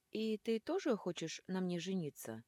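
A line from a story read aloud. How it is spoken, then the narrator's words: Plain. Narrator (Russian): спросила я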